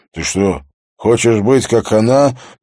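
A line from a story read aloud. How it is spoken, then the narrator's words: Hoarse wheeze, close by. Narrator (Russian): просипел его голос прямо у нее над ухом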